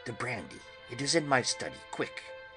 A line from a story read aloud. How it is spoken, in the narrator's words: I called quietly to Quincy